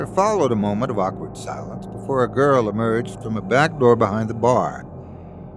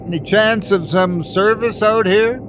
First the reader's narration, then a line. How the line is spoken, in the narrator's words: called out, saying